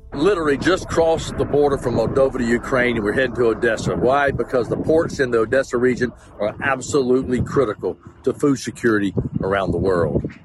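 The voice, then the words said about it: South Carolina American accent. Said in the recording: “As you can tell from his accent, he's not from Odesa. He's from South Carolina in the US.”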